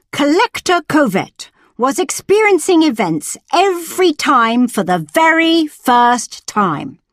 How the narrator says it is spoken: Triumphantly, he replied

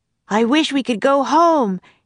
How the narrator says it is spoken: he shouted

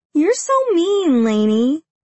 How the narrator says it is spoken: she whines

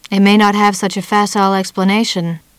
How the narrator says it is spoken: Muriel Bremen said coldly

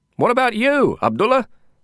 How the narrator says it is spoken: I asked him in a shout as we roared off with the traffic

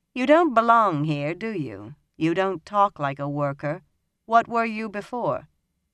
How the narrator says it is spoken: She was asking calmly

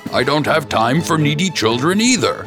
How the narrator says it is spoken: prince shouted

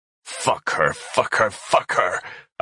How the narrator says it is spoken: I spat

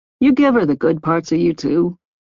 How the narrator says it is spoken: his father asked, his tone more calm

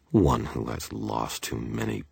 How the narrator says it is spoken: I grumbled, frustrated, mocking her beneath my breath

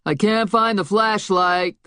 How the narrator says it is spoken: the guy yelled from the back room

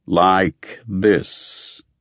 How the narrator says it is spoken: intoned

